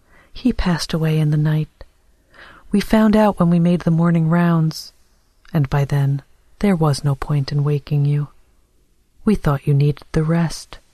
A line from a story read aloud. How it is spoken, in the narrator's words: A nurse said kindly